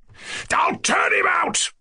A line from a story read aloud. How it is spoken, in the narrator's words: Ganya fairly roared, as though glad to vent his annoyance